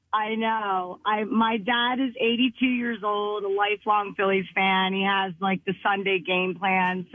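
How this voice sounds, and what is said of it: Strained, worn-out voice. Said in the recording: “My voice isn't so good today from all the excitement yesterday.”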